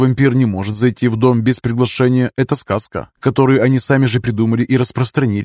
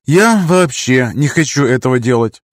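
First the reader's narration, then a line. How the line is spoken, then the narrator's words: Sighing. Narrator (Russian): вздохнула я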